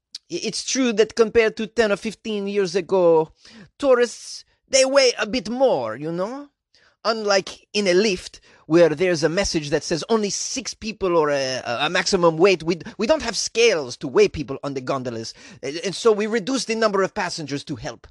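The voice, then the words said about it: Imitated voice with an unplaceable accent. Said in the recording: “What was that accent? I have no idea. ... I'm going to do an impression of Andrea. ... What accent is that?”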